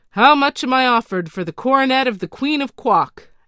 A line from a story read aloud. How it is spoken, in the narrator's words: asked the counselor in a loud voice